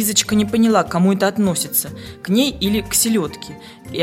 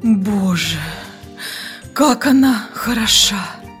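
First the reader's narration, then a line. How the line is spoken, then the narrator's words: Lustful whisper. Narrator (Russian): прошептал сладострастным шепотом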